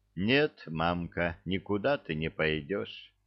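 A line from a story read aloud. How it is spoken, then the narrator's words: Sighing. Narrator (Russian): вздохнула Василиса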